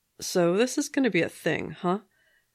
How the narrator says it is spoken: the guy said dryly

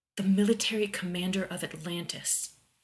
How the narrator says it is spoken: Rodney whispered

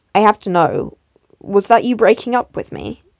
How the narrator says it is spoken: Tim said

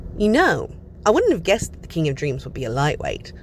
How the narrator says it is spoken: Hob muses cheerfully

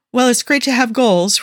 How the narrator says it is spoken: Rodney said, trying to smile back and failing miserably

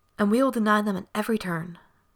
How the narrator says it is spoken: she said fiercely

